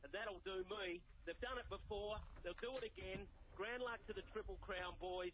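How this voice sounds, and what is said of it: Excited, animated voice. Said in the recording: “I'm very bloody excited. ... I can hear that in your voice”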